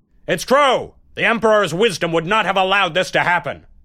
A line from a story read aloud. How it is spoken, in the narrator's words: Someone dared to shout out loudly